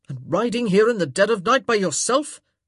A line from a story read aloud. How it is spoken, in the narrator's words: he yelled